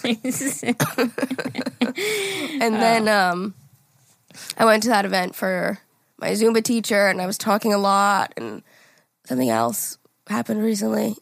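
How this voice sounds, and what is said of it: Hoarse, strained voice. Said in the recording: “I felt like I was slowly losing my voice... I was yelling in there... I just rolled out of bed”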